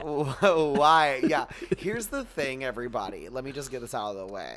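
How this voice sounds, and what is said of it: Heavy vocal fry, slower speech. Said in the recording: “my vocal fry is a little worse than usual ... he's talking slowly because he usually talks really quickly ... because I am in the middle of being very allergic to something in the air”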